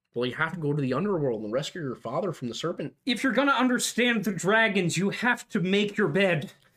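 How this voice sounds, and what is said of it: Imitates another person's voice. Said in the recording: “does a great impersonation of him”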